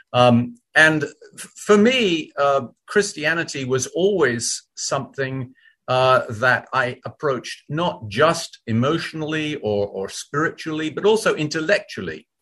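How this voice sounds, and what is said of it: British accent. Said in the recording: “You can probably tell from my accent that I'm born and bred in Great Britain rather than in America”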